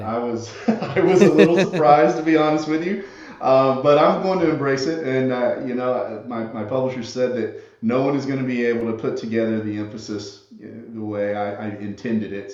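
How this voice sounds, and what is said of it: Southern American accent. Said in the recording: “my Southern accent ... despite my accent”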